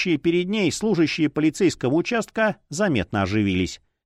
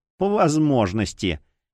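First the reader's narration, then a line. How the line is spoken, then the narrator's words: Sly, mocking smile. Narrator (Russian): ехидно улыбнулась Ринч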